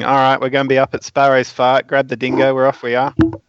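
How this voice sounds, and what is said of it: Put-on Australian accent, spot-on. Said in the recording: “talking in Australian ... That was a perfect impression.”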